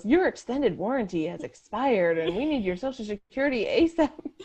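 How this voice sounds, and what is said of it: Robotic automated voice. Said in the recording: “robot voice”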